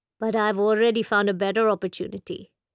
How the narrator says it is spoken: he said

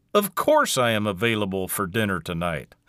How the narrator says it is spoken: Carl said with a chuckle

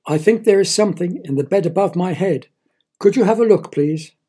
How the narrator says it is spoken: he cried

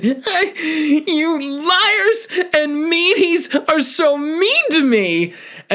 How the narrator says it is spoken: let out a long, wailing yell and said

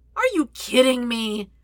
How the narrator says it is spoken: Sokka whines

